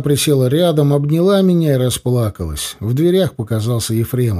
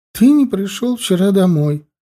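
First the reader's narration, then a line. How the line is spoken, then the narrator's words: Tearful complaining mother. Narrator (Russian): сквозь слезы жаловалась матушка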